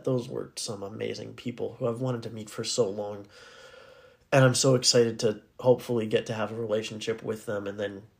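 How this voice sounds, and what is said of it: Raspy voice. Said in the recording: “my voice is raspy, ... if I was clearing my throat”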